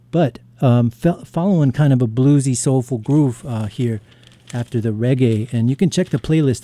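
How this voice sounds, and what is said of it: Slightly raspy voice. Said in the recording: “Voice is a little raspy. I was outside earlier working on a car, and it's humid.”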